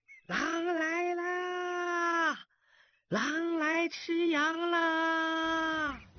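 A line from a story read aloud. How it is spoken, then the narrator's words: Boy shouting. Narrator (Chinese): 少年的喊声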